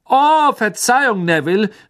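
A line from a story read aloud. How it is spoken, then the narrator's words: Calling over laughter. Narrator (German): rief Fred durch das allgemeine Gelächter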